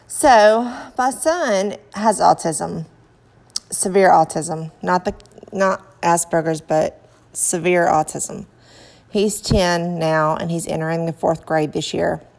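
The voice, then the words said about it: Southern American accent. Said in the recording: “Bear with my southern accent.”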